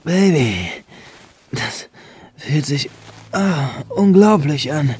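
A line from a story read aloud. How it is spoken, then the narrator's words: Moaning a bit louder. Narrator (German): stöhnte Benjamin nun etwas lauter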